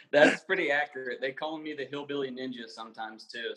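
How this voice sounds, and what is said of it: Slight southern American twang. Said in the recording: “I do have a bit of a southern twang in my language sometimes ... You do have a southern twang.”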